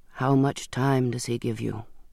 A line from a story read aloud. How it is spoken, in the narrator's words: I murmured